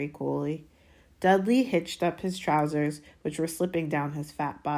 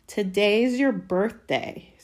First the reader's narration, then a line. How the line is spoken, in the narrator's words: sneered Dudley